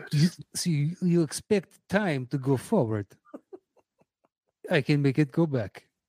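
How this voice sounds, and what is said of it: Branagh-style exaggerated Russian accent. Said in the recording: “please stop with the Russian. I love, love Branagh ... those Russian accents of his are insanely infuriating”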